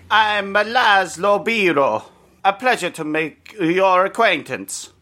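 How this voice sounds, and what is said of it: Deliberately poor put-on Italian accent. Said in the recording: “this is just the least offensive accent ... my accent was bad”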